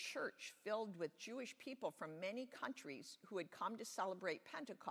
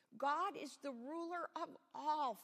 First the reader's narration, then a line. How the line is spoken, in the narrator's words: Philip exclaimed